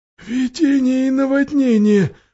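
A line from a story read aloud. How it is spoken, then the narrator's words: Almost voiceless moan. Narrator (Russian): почти без голоса простонал Трам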